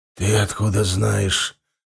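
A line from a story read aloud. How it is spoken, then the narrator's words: Hollow muffled voice. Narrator (Russian): глухим голосом спросил Нак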